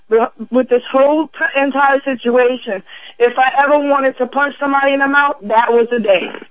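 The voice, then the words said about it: Shaky, angry voice. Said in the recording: “I know you can hear the shake in my voice right now because it makes me mad just thinking about it”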